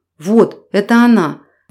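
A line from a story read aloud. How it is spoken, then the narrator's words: Furious, hurt, gloating exclamation. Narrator (Russian): воскликнула Мария со смесью ярости, обиды и какого-то злорадства в голосе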